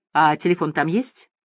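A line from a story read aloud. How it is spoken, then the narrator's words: Sincere laughter. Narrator (Russian): Кэти искренне рассмеялась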